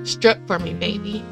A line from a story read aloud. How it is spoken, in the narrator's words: he says, his voice roughened with a thick Spanish accent